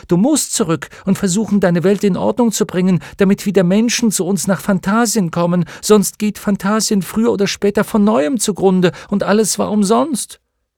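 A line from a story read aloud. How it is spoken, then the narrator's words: Startled shout. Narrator (German): rief erschrocken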